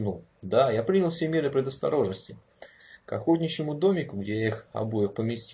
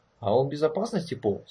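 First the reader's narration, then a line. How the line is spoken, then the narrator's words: Calm question. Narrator (Russian): спокойно спросил Форест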